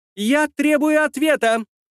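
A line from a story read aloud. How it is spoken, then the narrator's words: Shrill squeal. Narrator (Russian): Взвизгнула девица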